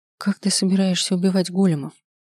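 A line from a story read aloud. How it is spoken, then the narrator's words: Hoarse from long silence. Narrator (Russian): Хриплым от долгого умолчания голосом поинтересовалась я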